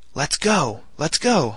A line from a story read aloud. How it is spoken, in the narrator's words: I exclaimed